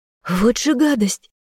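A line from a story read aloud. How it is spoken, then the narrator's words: Girl's startled shriek. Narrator (Russian): взвизгнула девушка, отпрыгивая зайцем назад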